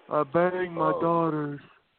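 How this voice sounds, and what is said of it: Bad impersonation of a person. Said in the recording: “that's a bad Doug impersonation.”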